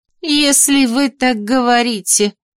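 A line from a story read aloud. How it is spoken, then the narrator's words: Doubtful drawl. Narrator (Russian): недоверчиво протянула Микаэла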